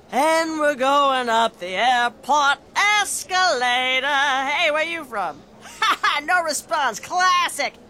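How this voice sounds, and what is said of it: Lounge singer character voice. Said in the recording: “my impression of a traveling lounge singer”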